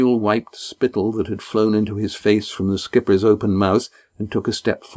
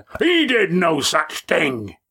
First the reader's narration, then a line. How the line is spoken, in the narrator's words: huge voice